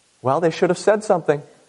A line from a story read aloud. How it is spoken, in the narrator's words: His mother calmly replied